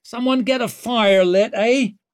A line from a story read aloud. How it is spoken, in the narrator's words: she called out